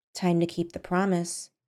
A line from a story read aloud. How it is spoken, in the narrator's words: she said quietly, almost absentmindedly